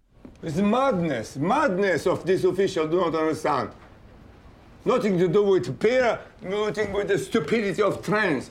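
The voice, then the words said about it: Bulgarian-accented English. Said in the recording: “Christo, in his Bulgarian accent, complaining”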